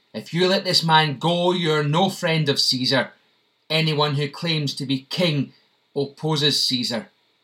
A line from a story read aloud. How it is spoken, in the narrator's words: the Jewish leaders kept shouting